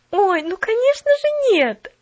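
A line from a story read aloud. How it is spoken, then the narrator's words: Exclaiming. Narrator (Russian): воскликнула Поллиана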